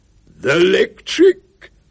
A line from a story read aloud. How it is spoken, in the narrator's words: said Duke significantly, in a louder voice